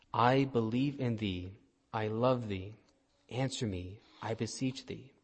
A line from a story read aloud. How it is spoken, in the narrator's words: he said gently